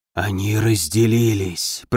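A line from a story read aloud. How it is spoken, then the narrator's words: Whisper. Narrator (Russian): прошептал Рипсак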